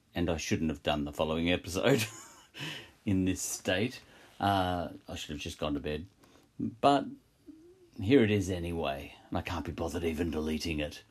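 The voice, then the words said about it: Croaky, tired voice. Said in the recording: “my voice is a little croaky here”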